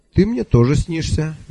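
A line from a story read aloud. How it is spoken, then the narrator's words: Cheerful declaration. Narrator (Russian): весело заявил я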